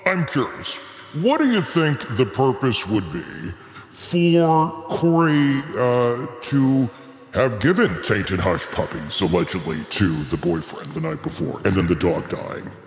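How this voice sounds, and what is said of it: Unexpectedly deep character voice. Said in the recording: “I don't know why you got such a deep voice. My God, I wasn't expecting that out of this little puppy girl here.”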